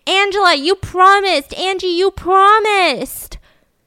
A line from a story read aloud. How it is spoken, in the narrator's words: Charlie running up behind her screaming